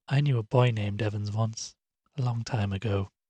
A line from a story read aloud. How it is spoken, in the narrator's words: the woman said quietly, her smile fading